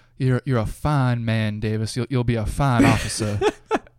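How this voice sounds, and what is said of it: Put-on accent imitating a film character. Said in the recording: “that's probably a better accent than Jason Patrick does”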